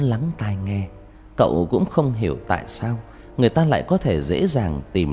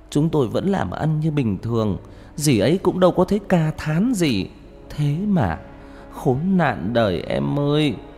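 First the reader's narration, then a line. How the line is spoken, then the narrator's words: Tearful whimpering. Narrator (Vietnamese): Người chị gái mếu máo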